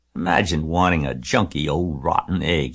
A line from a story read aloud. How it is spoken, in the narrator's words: he muttered